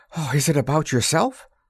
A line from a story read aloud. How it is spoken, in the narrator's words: Nora, with a sigh of relief